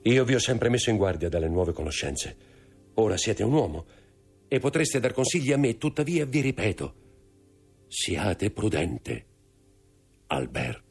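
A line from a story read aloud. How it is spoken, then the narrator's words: Agitated voice. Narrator (Italian): disse con voce alterata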